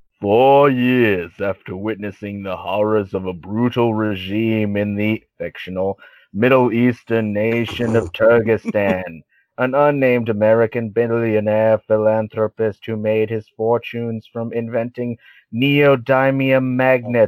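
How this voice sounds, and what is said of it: Reads aloud in a funny voice. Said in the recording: “In a funny voice.”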